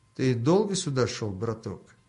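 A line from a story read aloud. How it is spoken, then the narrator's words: Quiet, clear question by burly man. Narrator (Russian): негромко, но отчетливо спросил коренастый бородач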